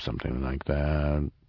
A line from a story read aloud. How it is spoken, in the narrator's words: Snout muttered indistinctly